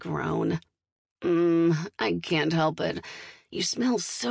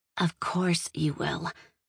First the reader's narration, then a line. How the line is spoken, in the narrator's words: she whispers close to my ear